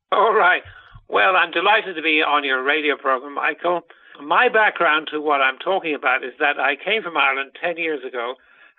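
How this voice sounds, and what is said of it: Unusual foreign accent. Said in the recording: “He has a very funny accent”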